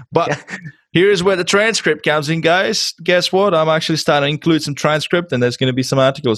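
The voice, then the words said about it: Czech accent in English. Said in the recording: “my accent ... my origin is i come from uh, czech republic so english is my second language”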